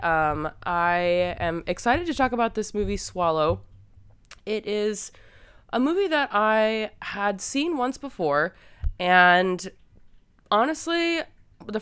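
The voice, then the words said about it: Sick-sounding voice. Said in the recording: “I was very sick, and unfortunately, I'm still a little sick, so I do apologize for my voice today ... overlook that sound”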